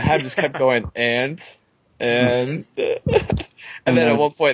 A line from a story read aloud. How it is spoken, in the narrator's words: Theon giggles